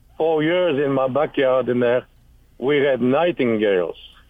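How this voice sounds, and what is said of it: French accent. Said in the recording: “How did you get I'm from France anyway? ... listen to your accent. It's beautiful.”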